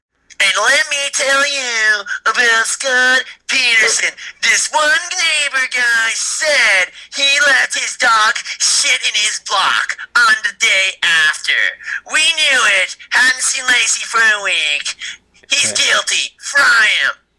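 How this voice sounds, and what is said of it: Nancy Grace impression. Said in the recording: “That's Nancy Grace, folks. ... That was actually a pretty good impression”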